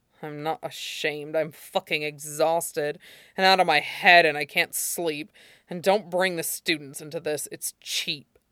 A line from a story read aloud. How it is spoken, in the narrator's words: grumbled, adding dourly